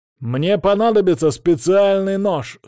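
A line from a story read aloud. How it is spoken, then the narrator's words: Shouting with barely hidden anger. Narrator (Russian): с плохо скрываемой злостью крикнул я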